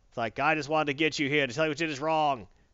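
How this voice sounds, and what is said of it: Put-on accent for a character. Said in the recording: “That's the accent I'm using for Gordon right now.”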